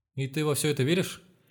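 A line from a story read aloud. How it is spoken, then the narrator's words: Frightened question. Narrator (Russian): испуганным голосом спросила Варя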